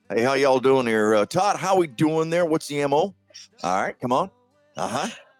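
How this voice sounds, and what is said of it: Put-on Southern US accent. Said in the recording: “that southern accent”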